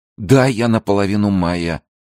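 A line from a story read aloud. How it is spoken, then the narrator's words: Mumbling. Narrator (Russian): пробормотал пион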